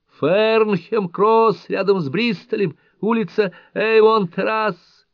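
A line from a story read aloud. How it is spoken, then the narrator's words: Shouting at full strength. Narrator (Russian): Она кричала, что было сил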